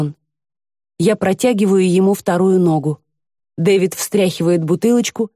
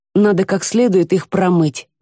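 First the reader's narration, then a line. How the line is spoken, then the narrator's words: Plain. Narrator (Russian): говорит Дэвид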